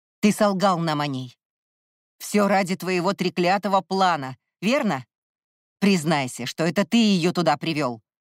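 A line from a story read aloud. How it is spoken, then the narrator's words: Distant angry bark. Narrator (Russian): рявкнул Кай где-то в отдалении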